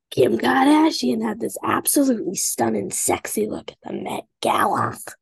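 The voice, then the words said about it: Kim Kardashian impression. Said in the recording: “I could do such a good impression ... I'm better at Kim Kardashian.”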